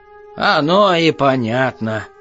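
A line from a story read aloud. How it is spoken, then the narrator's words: Short laugh. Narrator (Russian): хохотнул повар-раздатчик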